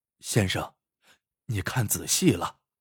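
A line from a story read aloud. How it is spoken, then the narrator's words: Sudden soft call. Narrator (Chinese): 汉子忽然轻声叫了起来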